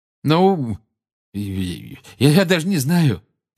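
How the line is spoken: Flustered mumble. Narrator (Russian): промямлил Гарри, которого эта просьба о поддержке привела в смятение

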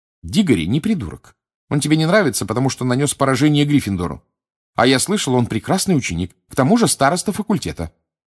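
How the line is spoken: Authoritative, firm tone. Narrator (Russian): непререкаемым тоном проговорила Гермиона

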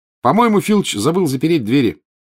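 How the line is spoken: Cheerful announcement. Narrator (Russian): бодро сообщил Гарри

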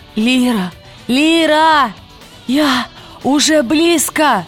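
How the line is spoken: Hoarse wheeze. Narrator (Russian): прохрипела она

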